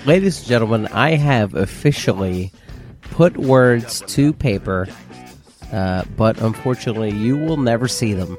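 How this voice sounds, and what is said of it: Sick, terrible-sounding voice. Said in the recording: “guest voice my summer cold ... you sound terrible. ... You sound like garbage.”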